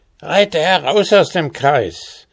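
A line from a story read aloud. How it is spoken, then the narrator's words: Dwarf calling out. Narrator (German): rief der Zwerg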